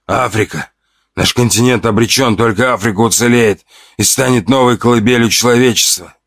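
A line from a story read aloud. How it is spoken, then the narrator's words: Wheeze. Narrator (Russian): прохрипел он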